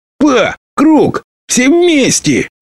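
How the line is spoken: Shout barely heard over music. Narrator (Russian): выкрикнула Лобасти, почти неслышная за неистовством музыки

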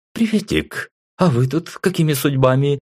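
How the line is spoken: Cheerful, carefree question. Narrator (Russian): Весело и без комплексов спросила Тея

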